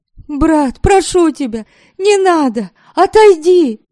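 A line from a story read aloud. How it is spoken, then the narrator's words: Shouting. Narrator (Russian): кричала она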